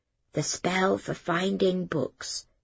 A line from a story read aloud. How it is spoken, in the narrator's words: she whispered